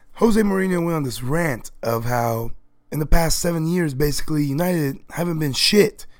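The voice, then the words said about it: Hoarse, partly lost voice. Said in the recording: “excuse my voice, I've lost my voice, it's finally starting to come back a little”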